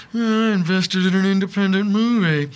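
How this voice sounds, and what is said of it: Imitates a fictional character's voice. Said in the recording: “That's my Thurston Howell III imitation ... your whole face became”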